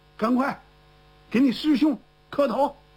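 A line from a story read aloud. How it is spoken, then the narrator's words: Hurried command. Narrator (Chinese): 严正方赶快叫自己儿子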